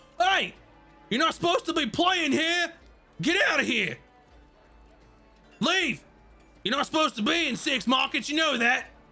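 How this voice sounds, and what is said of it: Character voice yelling. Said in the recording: “Why are you yelling at this child?”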